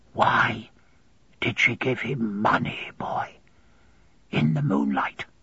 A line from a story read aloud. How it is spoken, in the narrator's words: whisper very softly